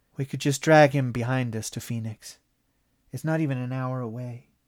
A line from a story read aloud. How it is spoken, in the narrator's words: Lorelei sighed and said